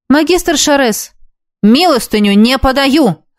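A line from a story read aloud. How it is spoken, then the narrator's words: Barking harshly. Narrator (Russian): рявкнул он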